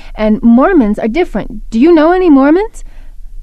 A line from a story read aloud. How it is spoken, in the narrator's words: I said excitedly